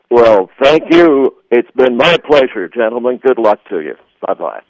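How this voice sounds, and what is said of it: Polished radio broadcaster voice. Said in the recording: “has a radio voice”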